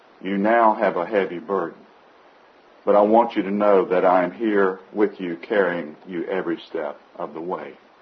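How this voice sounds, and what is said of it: Whispered quoted voice. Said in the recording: “whispering”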